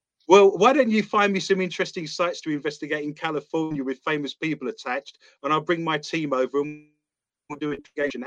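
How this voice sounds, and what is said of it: British accent. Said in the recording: “when you've got the British accent”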